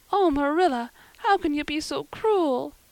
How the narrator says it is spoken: sobbed Anne

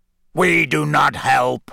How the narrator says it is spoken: said in a harsh, croaky voice

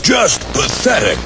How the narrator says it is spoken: grunted Gordon

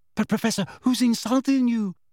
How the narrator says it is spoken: asked Parvati timidly

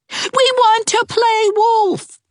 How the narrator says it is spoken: they both cried together

